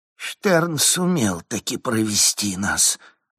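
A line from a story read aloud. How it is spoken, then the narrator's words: Sorrowful exhale. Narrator (Russian): горестно выдохнул ноздря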